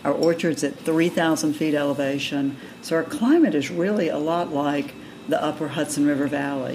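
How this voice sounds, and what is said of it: Southern American accent. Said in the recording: “someone with a southern accent”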